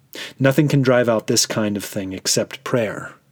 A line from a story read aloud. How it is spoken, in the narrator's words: replied Jesus